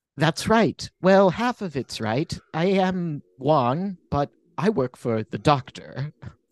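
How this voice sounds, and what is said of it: Vague put-on British accent. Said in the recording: “this lovely British accent ... It's very unspecific.”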